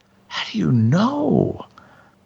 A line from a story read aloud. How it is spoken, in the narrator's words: I asked almost hysterically